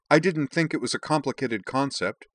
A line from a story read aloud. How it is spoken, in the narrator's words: Jen snapped